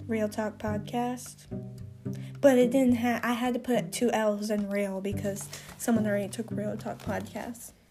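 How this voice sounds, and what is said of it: Congested voice. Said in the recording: “I hate my voice on this so bad. I sound congested.”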